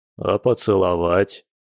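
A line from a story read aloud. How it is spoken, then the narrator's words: Almost menacing werewolf. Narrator (Russian): почти грозно напомнил оборотень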